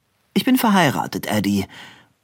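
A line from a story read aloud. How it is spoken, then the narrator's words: Dry. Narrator (German): sagte Kitty Cower trocken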